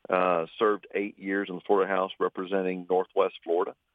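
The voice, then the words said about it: Southern Lower Alabama accent. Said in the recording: “you hear my dialect, people say, well, where are you from? ... I'm from Lower Alabama”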